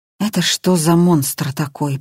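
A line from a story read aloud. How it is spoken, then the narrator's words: Muttered. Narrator (Russian): пробормотал Илюшин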